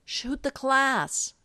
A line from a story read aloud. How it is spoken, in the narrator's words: Allison yells